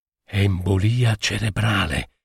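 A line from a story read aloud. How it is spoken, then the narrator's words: Low, confiding voice. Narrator (Italian): ripeté a bassa voce il dottor Bax, come confidasse un gran segreto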